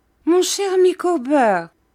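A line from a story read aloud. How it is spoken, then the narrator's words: Wife exclaiming. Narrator (French): s'écria sa femme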